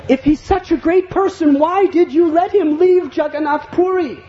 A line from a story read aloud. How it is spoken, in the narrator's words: The king exclaimed